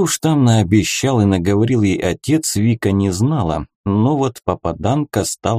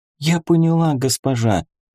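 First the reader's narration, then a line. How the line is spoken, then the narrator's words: Timid, trembling voice. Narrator (Russian): все так же робко с дрожью в голосе ответила Бента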